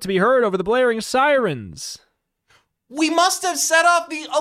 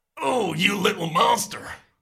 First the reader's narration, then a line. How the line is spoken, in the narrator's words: He snarls